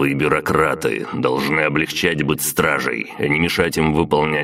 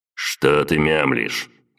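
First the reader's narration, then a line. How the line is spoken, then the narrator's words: Displeased snort. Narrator (Russian): Поморщился Владислав и хмыкнул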